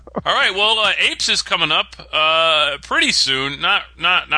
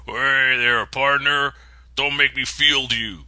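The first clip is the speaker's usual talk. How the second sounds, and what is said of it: Put-on cowboy drawl. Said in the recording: “I'm speaking cowboy now.”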